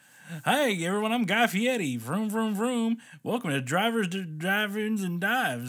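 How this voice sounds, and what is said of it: Imitation with put-on southern accent. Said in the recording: “He doesn't have a southern accent, by the way. Like I just gave him.”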